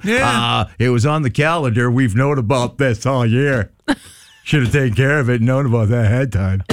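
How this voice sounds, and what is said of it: Imitates another person's voice. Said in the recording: “Is that your John impression? ... No, that's Larry, the guy up that has the big office.”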